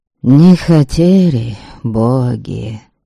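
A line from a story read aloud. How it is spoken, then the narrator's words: Old elder's sigh. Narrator (Russian): Вздохнул седой волх Святобор, Ваятин дед по матери и самый старый из ныне живых родичей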